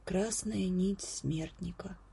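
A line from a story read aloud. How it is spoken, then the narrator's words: Quiet repetition. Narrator (Russian): тихонько повторил Десперо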